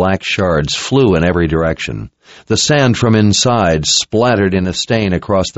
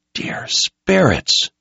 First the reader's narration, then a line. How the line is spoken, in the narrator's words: Richard whispered in sudden realization